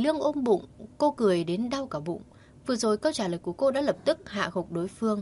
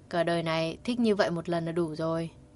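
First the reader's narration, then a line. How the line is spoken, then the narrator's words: Gentle unsmiling reply. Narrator (Vietnamese): Kỳ Lương không cười mà nhẹ nhàng trả lời một câu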